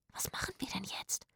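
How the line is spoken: Excited whisper. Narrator (German): wisperte Zora aufgeregt

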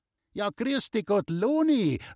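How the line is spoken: Calling out. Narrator (German): rief Läusel

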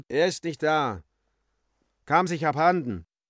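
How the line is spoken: Calling from inside. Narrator (German): Er rief von innen

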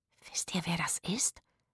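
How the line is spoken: Excited whisper. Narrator (German): wisperte Rufus aufgeregt

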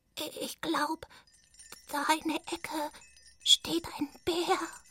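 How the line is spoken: Whispering. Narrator (German): wisperte Kuno

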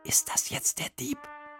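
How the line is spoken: Whispered. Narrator (German): flüsterte Emil

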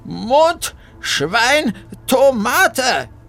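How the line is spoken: Loud. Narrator (German): sagte Bertha laut

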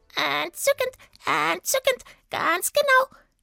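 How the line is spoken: Smooth croak. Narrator (German): krächzte Sweetie glatt

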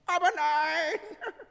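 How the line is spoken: Little monkey's call. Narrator (German): rief das Äffchen

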